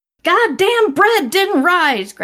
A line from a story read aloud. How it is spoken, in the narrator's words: Grandma shouted